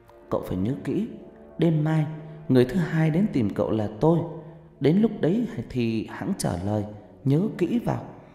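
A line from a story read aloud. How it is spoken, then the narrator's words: Faint windlike whisper. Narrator (Vietnamese): Một giọng nói văng vẳng như tiếng gió thì thào bên tai Thành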